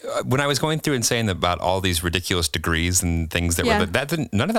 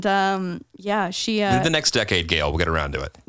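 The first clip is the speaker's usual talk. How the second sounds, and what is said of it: Sarcastic delivery. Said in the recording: “that was sarcasm.”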